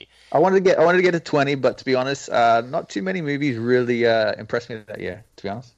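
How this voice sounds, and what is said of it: Noticeable foreign accent. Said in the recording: “you have a much cooler accent than I do”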